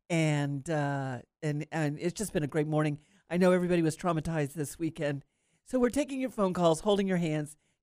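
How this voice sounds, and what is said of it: Congested voice from a cold. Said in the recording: “I've got a little bit of a cold”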